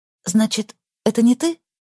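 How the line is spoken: Timid question. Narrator (Russian): робко уточнила Настя

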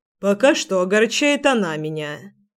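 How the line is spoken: Grumbling. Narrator (Russian): проворчал Генрих

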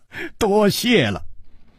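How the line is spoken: Laughing. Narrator (Chinese): 楚留香笑着说

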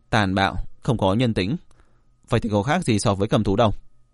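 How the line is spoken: Cold voice. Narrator (Vietnamese): Diệp Viễn lạnh lùng nói

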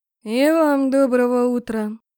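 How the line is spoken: Grumbled. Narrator (Russian): проворчала я

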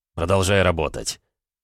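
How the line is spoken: Cold command. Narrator (Russian): Холодно приказал подчиненному

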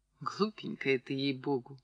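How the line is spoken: Sighing. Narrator (Russian): вздохнула Клавдия

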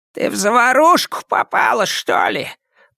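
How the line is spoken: Hoarse rasp. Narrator (Russian): прохрипел Бэзил

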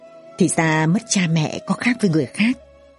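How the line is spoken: Sighing. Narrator (Vietnamese): Bảo Ngọc thở dài

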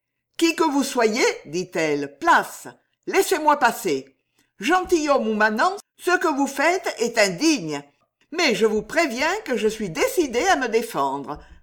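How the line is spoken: Firm voice. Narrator (French): d'une voix ferme

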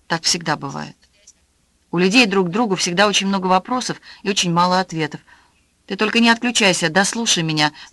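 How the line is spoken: Pleading. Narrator (Russian): взмолилась Аня

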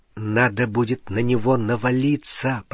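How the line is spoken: Whispered in ear. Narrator (Russian): прошептал Гарри на ухо Рону

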